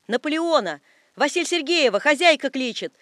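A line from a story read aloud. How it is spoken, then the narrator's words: Shout behind wall. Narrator (Russian): заорал кто-то за стеною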